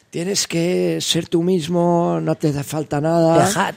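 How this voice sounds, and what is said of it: Put-on Argentine accent. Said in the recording (Catalan): “s'ha tornat argentí el tio, de cop ... M'ha sortit accent argentí.”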